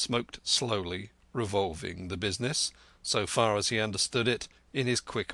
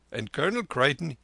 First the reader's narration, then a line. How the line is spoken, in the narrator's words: he laughed